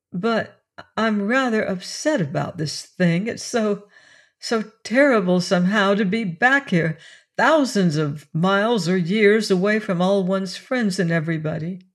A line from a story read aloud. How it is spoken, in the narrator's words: she answered shakily